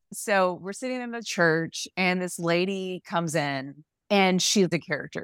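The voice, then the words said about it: Southern US accent. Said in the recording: “that Southern hospitality ... I'm from a very small town. You might've heard the accent there”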